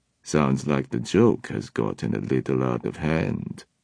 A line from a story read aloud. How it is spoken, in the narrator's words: Katerina said dryly